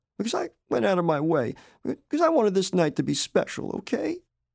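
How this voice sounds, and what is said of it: Fragile, tearful voice. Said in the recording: “in a fragile voice, tearing up.”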